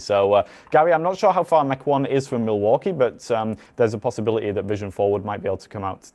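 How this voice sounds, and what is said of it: Non-American accent. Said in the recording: “You may already have guessed from my accent, but I'm not from Wisconsin or indeed from America.”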